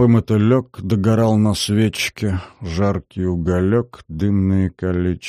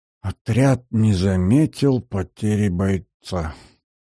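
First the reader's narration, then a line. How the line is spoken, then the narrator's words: Very soft whisper. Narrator (Russian): тихо-тихо прошептал наш герой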